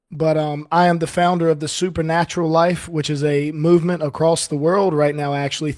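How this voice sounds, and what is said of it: Voice not at full strength. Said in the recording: “my voice is still not 100%”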